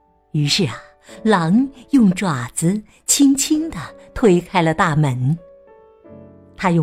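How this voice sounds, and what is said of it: Usual voice. Nothing is said of it.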